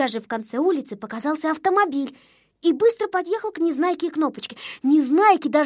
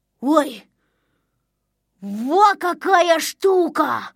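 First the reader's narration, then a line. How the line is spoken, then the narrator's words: Exclamation. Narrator (Russian): воскликнул он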